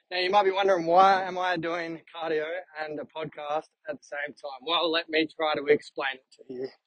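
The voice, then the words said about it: Slightly out of breath. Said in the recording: “if I sound like I'm out of breath”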